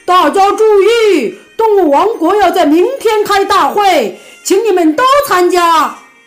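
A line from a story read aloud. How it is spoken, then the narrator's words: Loud shout through megaphone. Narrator (Chinese): 狗熊又用喇叭大声喊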